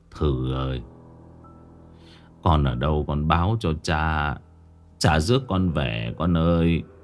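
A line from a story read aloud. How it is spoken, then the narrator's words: Old man muttering. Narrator (Vietnamese): Ông lẩm bẩm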